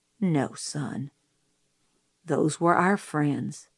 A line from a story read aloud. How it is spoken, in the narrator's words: he said gently